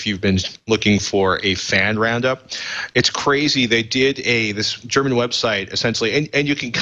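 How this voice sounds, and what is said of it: Usual voice. Nothing is said of it.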